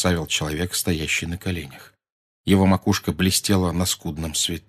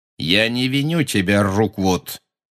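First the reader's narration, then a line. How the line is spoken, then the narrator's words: Cold, cruel voice. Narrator (Russian): сказал Гарри тем же холодным, жестоким голосом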